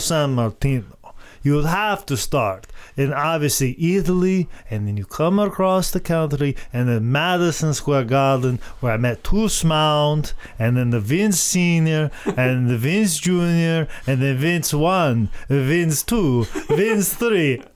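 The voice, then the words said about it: Dracula-like impression of another person. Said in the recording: “my Bruno Sammartino impersonation, which sounds a lot like my Dracula or Count Dracula”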